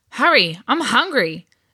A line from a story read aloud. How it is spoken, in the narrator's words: a fellow Titan exclaimed